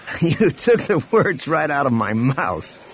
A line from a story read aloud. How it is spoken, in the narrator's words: Han laughed